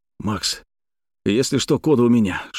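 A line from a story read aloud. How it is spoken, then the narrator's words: Whisper. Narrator (Russian): шепнул я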